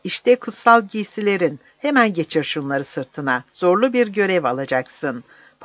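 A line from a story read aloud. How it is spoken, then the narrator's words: Laughing. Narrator (Turkish): dedi Lukas gülerek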